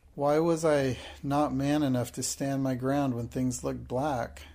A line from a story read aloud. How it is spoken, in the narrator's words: Carrisford groaned in petulant misery